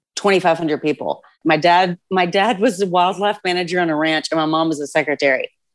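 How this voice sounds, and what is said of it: Texan drawl. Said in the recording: “You might be able to tell from her drawl, but ... grew up in a small town in Texas.”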